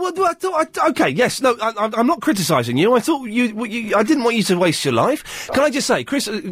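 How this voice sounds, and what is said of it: Usual voice. Nothing is said of it.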